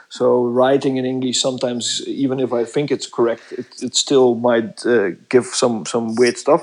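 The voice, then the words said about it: Non-native English accent. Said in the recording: “As you might have guessed from my accent, I'm not a native English speaker.”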